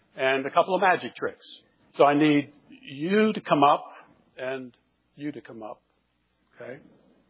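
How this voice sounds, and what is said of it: Pittsburgh accent. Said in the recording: “a Pittsburgh accent”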